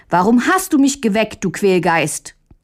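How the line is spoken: Angry shout. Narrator (German): rief Möndlein böse

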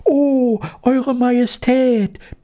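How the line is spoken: Squeaky voices, all at once. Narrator (German): piepsten sie durcheinander

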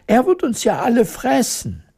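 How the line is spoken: Queen screaming in horror. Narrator (German): schrie die Königin entsetzt

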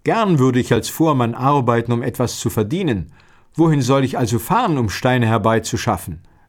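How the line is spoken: Young man, plain. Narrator (German): der Jüngling sagte

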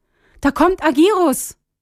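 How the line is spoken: Calling loudly. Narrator (German): rief laut

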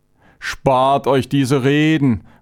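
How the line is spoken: Shouted angrily. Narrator (German): rief Chavenes aufbrausend

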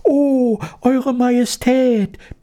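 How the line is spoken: Squeaking all at once. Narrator (German): piepsten sie durcheinander

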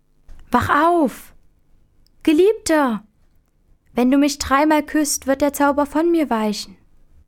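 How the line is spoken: Woman calling out. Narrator (German): die schöne Fee Ilona rief

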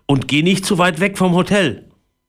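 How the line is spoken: Calling after. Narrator (German): rief Papa ihm nach

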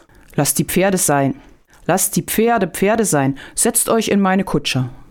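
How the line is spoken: Called out. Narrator (German): rief Janek

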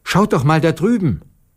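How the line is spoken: Sudden call. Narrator (German): Plötzlich rief Marussia

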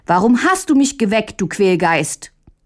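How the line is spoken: Angry shout. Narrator (German): rief Mündlein böse

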